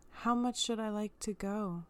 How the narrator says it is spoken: sighed Catskin

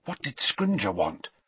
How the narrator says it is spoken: Hermione whispered

